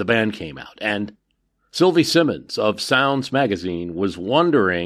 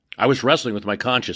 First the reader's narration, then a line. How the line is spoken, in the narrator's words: said